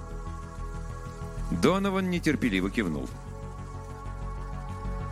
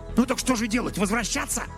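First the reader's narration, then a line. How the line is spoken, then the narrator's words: Furious hiss. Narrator (Russian): яростно прошипел Донован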